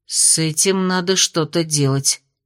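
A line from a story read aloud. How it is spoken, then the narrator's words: Mumbled. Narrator (Russian): пробормотала Аделин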